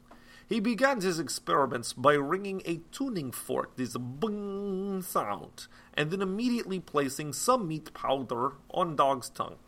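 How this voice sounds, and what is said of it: Strong non-native English accent. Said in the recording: “Sorry for terrible accent.”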